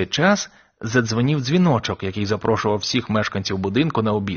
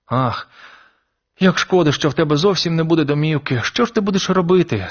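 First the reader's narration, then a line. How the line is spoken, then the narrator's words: Tearful sob. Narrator (Ukrainian): схлипнула Мейбл, і по її щоках покотилися сльози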